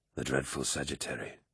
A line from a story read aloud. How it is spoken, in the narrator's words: Horus whispered, with a delighted grin